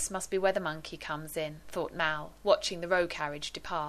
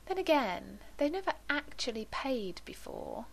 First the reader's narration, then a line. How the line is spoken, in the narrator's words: she murmured, and added wistfully